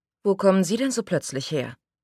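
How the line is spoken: Calm, nervous question. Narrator (German): fragte Scarlett ruhig, obwohl ihr Puls heftig in ihrer Kehle pochte

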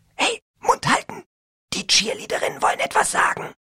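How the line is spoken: Whispered. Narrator (German): Irgendwer hinter uns flüsterte

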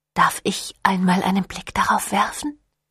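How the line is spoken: Breathy whisper. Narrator (German): hauchte

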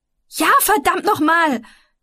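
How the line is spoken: Shouting at someone. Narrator (German): schrie ihn an

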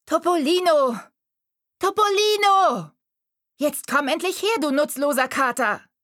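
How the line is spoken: Bossy call hiding fear. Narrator (German): rief sie herrisch, aber Mariella hörte genau, dass sie Angst hatte

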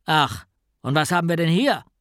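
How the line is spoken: Gruff question. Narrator (German): fragte mit barscher Stimme

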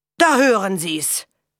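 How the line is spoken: Mocking. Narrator (German): höhnte Simpson

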